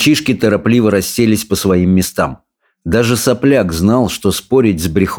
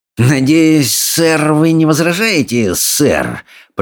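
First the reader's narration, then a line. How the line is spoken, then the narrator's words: Hiss. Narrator (Russian): прошипел Сопляк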